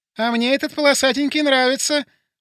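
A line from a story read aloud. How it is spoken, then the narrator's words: Squeaky female voice. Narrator (Russian): пропищал женский голос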